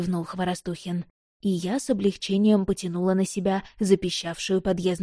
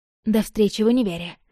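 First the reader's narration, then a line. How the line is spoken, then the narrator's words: Embarrassed mumble. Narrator (Russian): сконфуженно пробормотала я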